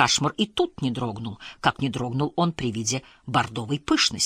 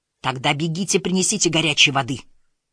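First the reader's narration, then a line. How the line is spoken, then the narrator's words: Commanding bark. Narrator (Russian): рявкнул он повелительно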